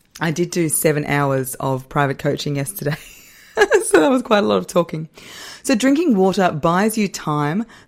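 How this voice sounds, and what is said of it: Voice slightly strained, under the weather. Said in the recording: “hear my voice is a little bit under the weather at the moment”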